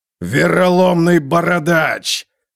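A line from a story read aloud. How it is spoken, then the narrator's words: Roar. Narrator (Russian): Готрик взревел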